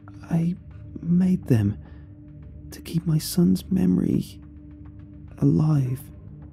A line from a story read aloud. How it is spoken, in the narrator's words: Leah said weakly, who was in a deep trance